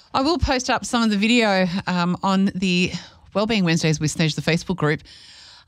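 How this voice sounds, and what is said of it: Out of breath, panting speech. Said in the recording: “I need to get my breath back. I feel like I'm sounding a little bit of out of breath. ... I'm feeling a little bit out of breath. I was jumping up and down.”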